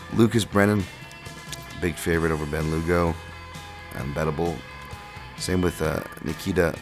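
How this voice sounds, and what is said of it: Usual voice. Nothing is said of it.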